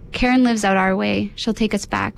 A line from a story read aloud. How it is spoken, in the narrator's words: my dad says